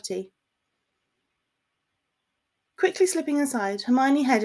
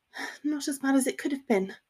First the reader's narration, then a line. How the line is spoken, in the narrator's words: muttered